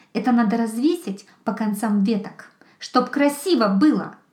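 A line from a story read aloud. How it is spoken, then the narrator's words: Stern, loud fox cub. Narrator (Russian): Последние слова лисенок сказал строго и громко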